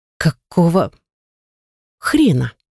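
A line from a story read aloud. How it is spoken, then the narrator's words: Forced out, word by word, bewildered. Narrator (Russian): выдавила я, отделив каждое слово в полном недоумении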